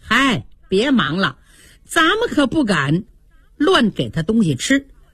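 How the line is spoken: Laughing. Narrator (Chinese): 袭人笑了

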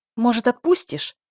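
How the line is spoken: Angry question. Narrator (Russian): зло спросила

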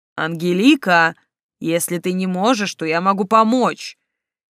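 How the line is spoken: More menacing growl. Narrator (Russian): Снова рычание, но на этот раз более угрожающее

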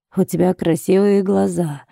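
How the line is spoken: Purring languid voice. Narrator (Russian): сказал он мурлыкающим томным голосом

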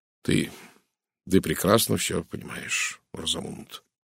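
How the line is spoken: Quiet. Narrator (Russian): тихо промолвил он

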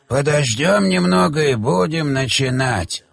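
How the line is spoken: Creaky old man's voice. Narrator (Russian): произнес сухой старик скрипучим голосом

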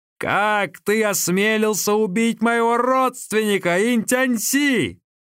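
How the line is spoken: Shouted. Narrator (Russian): Гао Лянь закричал

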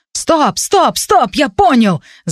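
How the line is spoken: Shout masking pain. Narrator (Russian): закричал я, чтобы не застонать и не взвыть от боли

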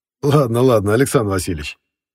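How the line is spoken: Laughing. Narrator (Russian): рассмеялся Эссен

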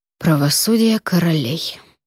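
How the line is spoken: Muttered. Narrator (Russian): пробормотал

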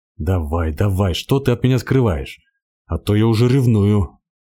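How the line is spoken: Growled. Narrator (Russian): зарычал он

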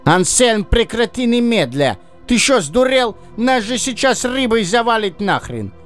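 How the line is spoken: Fox yelling in alarm. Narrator (Russian): завопил лис

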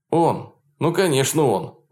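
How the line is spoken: Exclaimed. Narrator (Russian): воскликнул Полунин

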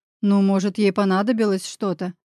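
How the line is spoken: Snorting remark. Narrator (Russian): хмыкнул я

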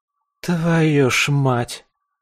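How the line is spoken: Exhaled exclamation. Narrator (Russian): выдохнула Слеза

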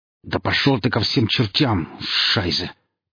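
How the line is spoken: Hateful hiss. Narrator (Russian): прошипел начальник службы безопасности, глядя ненавидящими глазами

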